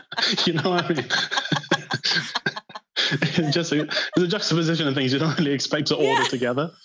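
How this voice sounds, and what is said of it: Northern English accent. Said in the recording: “my accent ... As a very northern person.”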